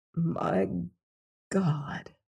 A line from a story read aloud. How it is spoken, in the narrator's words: he muttered